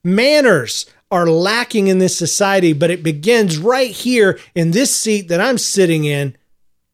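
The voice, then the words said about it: Loud, yelling delivery. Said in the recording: “sorry for yelling the whole episode”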